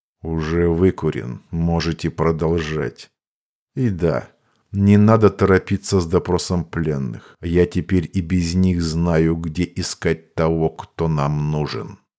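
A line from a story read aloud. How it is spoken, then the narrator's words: Lifeless flat tone. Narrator (Russian): маг безжизненным тоном произнес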